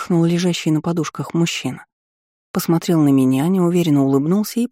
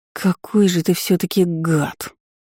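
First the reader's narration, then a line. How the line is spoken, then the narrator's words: Indignant exhale. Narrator (Russian): возмущенно выдохнула я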